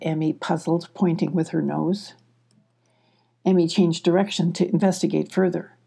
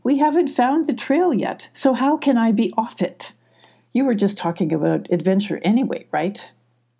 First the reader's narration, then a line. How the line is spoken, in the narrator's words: scoffed Emmy